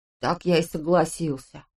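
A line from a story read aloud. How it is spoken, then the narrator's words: Gloomy. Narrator (Russian): мрачно сказал Улли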